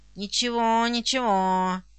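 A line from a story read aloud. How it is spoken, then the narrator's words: Grumbling. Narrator (Russian): ворчал Жорж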